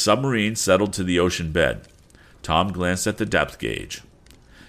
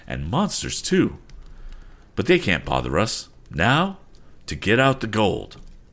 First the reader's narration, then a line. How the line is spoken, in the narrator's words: exclaimed Captain Weston